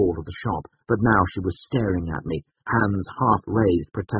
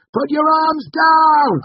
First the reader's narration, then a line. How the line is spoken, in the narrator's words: I shouted